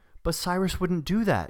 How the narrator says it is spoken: she said, her voice high and trembling

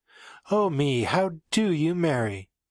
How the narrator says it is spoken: she asked, still giggling like a schoolgirl

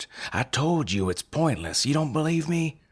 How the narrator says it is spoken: I snapped

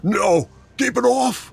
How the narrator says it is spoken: cried

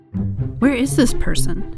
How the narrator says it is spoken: Jessica asked in a whisper

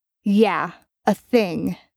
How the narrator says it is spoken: Dean drawled out slowly, daring Bobby to contradict his choice of words

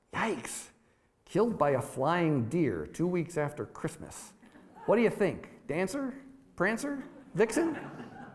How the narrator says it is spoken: Guppo choked back a laugh

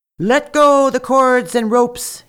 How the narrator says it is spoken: he shouted

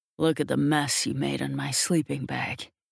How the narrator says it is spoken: he growls

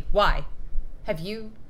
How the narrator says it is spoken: sharply

